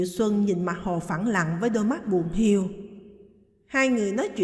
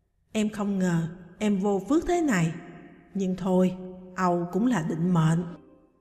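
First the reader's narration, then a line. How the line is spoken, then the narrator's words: Sighing. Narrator (Vietnamese): Diệu Xuân thở dài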